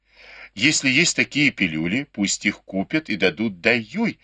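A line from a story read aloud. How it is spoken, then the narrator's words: Plain. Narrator (Russian): сказала госпожа Ван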